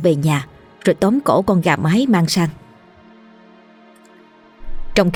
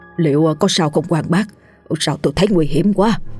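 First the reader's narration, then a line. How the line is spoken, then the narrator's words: Trembling, frightened question. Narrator (Vietnamese): Nghe tiếng rắn rít mạnh quá, ông Tạo run run hỏi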